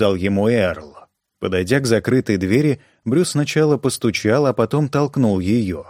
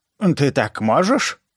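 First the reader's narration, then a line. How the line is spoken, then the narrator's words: Lisping. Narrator (Russian): прошепелявила она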